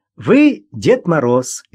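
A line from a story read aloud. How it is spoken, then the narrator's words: Cheerful reply. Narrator (Russian): весело ответила Маша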